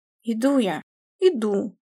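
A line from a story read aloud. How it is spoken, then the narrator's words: Muttered. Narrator (Russian): пробормотала я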